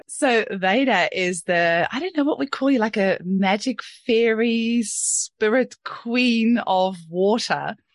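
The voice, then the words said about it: New Zealand accent. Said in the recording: “another Kiwi accent ... I'm glad that you think I still have a Kiwi accent because I don't really want the Aussie accent to creep in too much”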